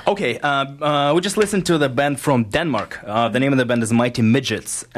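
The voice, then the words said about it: Russian accent. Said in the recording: “you have a very unique voice ... It's your accent ... It's your Russian accent.”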